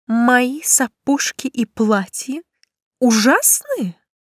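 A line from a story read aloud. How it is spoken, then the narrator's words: Slow repetition. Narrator (Russian): медленно повторила она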